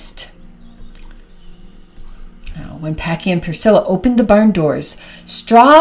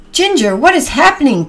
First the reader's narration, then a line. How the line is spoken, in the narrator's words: Packy cried